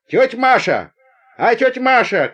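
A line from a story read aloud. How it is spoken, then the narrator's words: Girl calling out. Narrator (Russian): крикнула одна из девушек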